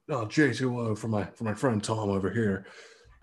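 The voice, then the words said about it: Imitates another person's voice. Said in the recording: “That was a good impression. That was solid... my Cage”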